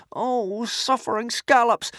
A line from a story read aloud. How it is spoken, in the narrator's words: moaned Hiccup